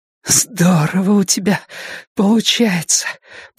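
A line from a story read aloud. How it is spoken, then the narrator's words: Hoarse rasp. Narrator (Russian): прохрипела Дейна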